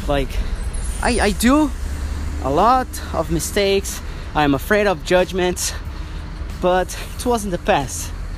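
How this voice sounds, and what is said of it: Non-native English accent. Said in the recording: “people are gonna judge my English, are gonna judge my accent ... English, it's not, it doesn't sound native, it's, it's weird”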